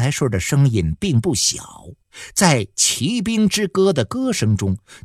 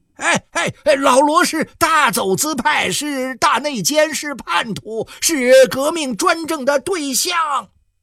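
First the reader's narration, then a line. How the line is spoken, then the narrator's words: Agitated loud shouting. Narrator (Chinese): 杨来顺急了，他大声地喊了起来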